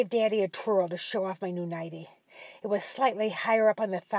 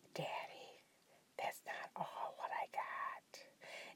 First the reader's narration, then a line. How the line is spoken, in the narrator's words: I whispered